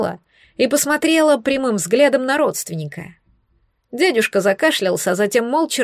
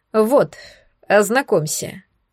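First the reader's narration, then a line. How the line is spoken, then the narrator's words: Dry, curt tone. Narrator (Russian): сухо проговорил Рубен Даниэлс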